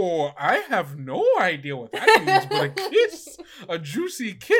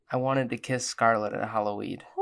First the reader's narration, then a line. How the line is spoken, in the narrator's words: quietly say and goes